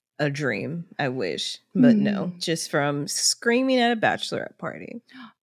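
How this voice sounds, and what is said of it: Slightly raspy, hoarse voice. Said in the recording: “So you're constantly hoarse, constantly raspy. ... Well, my throat is a little raspy right now.”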